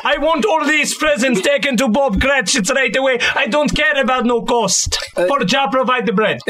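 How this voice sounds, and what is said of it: Put-on unusual accent. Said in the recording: “crazy accent”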